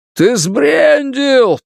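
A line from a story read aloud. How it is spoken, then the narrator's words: Shouted reply. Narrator (Russian): прокричал в ответ Тревор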